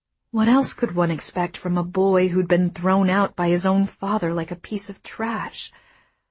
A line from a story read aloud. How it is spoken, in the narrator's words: I sighed